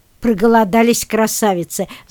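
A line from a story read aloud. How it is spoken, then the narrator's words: Old man laughing. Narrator (Russian): засмеялся дедушка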